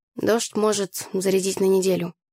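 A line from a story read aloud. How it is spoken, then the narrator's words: Lazy reply. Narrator (Russian): лениво отозвалась я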